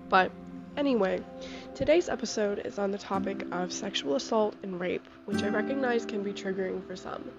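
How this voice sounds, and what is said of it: Sick, slightly off voice. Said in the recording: “I'm sick, so if my voice sounds a little off, that's why”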